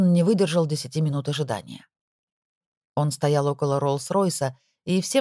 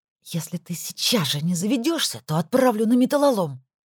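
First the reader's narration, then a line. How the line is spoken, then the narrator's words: Angry hushed hiss. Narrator (Russian): Зло прошипела она Логану так, чтобы ее никто из людей не услышал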